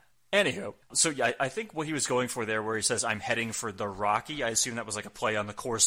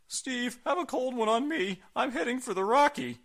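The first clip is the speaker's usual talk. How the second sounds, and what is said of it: Imitates another person's voice. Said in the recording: “my Mankind impression”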